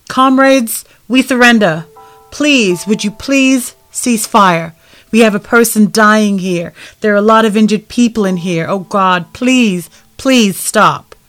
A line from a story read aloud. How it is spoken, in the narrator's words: And he yells out